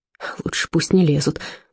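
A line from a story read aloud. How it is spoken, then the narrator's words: Muttering. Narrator (Russian): буркнул Отто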